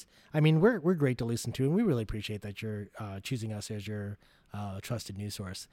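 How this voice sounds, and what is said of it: Calm public-radio announcer voice. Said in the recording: “since I'm using my NPR voice right now”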